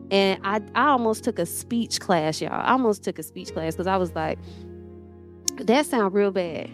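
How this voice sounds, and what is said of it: Country Southern accent from Atlanta. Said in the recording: “I'm country. I talk a little country sometimes... I'm from the east side of Atlanta. And this is how all of my people talk.”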